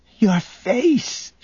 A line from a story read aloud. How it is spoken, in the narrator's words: whimpered